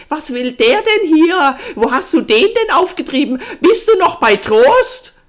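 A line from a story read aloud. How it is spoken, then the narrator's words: Startled shout. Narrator (German): Ardennes erschrak nicht eben weniger, schrie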